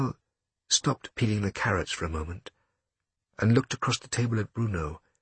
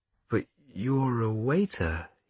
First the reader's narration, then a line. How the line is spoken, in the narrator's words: he said slowly